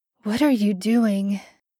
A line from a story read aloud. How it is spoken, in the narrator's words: Sam's voice was clear over the sound of falling water, and only a rasp of breath